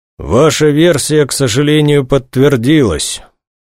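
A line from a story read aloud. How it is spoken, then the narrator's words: Muffled voice. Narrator (Russian): глухим голосом сообщил полковник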